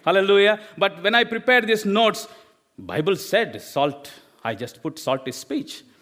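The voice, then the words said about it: Indian English accent. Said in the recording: “I'm not studied in English medium school... I've studied in my own language from India... I hope you are understanding my accent”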